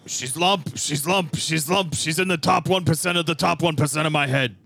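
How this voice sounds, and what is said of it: Imitates another person's voice. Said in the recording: “I know that I'm eh, not very good at this impression ... my Bernie Sanders is also like a little bit Alex Jones”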